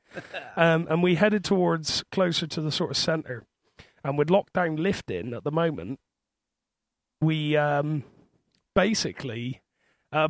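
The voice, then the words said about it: Thick Bristol accent. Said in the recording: “I am from Bristol. Because of my thick accent,”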